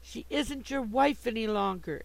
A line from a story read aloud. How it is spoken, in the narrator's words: exclaimed Sue, passionately excited